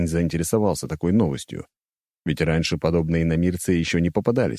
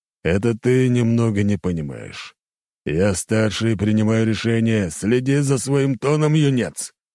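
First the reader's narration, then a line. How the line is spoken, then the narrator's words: Growled. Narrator (Russian): рыкнул он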